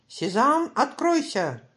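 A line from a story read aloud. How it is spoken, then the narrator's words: Shouted. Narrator (Russian): крикнул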